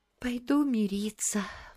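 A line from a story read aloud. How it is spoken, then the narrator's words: Sighing. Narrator (Russian): вздохнула София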